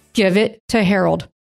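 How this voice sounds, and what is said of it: Deep fatherly voice. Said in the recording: “God used a dad voice.”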